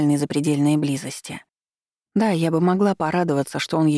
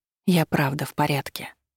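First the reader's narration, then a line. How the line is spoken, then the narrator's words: Quiet. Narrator (Russian): сказала тихо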